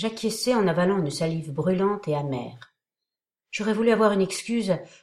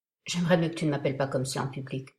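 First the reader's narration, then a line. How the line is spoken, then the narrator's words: Gentle remark. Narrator (French): me fit-il remarquer doucement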